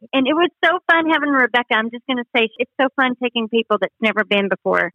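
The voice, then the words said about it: Texas accent. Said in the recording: “Oh, my gosh, you're Texas. ... I knew you would love her accent.”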